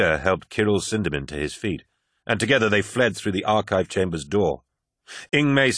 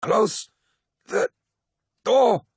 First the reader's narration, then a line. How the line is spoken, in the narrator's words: said Ingmei Singh through gritted teeth